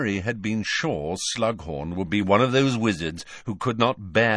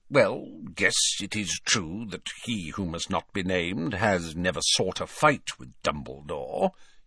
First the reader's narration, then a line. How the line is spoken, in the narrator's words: he muttered grudgingly